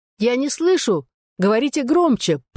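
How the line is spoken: Shouting over a bad line. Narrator (Russian): прокричала, гадая, слышно ли ее на том конце

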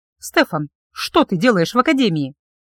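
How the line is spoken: Abrupt change of topic. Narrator (Russian): резко сменила я тему разговора

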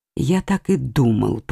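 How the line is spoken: Whispered to himself. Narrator (Russian): прошептал он про себя

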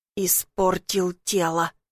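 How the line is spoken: Drunken regretful mutter. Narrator (Russian): бормочет с каким-то пьяным сожалением

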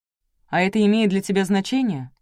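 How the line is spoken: Snapped back. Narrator (Russian): огрызнулся Гридин

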